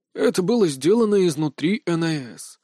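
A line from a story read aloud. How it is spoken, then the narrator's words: Weary statement. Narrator (Russian): устало заявил Ким Чон Сон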